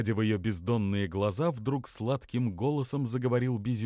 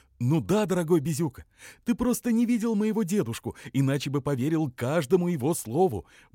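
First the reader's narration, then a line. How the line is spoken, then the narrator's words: Rapid speech. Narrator (Russian): быстро заговорила конюча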